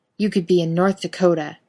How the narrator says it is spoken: Bobby growls

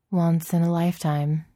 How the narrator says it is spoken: said Natasha, her voice heavy with the irony

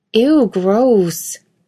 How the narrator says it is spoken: Dean laughed into the kiss

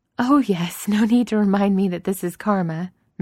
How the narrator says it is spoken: Miss Baggins says with a laugh

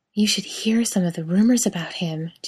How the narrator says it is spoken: Genevieve murmured breathily

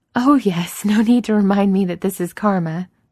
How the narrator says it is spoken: Miss Baggins says with a laugh

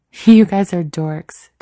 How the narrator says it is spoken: Danielle laughs before stifling a yawn

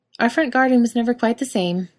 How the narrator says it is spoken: Jared said cheerfully

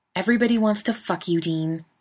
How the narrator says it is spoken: he snaps

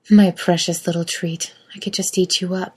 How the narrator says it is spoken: Kate purrs

